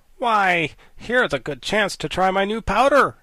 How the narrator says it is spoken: said she eagerly

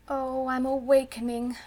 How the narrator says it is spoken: she said mournfully

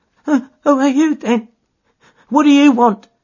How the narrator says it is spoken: asked in a quavering voice

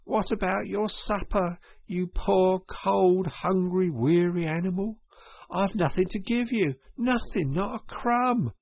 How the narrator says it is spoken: he moaned

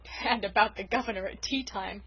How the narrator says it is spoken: chuckled unrepentant Dan

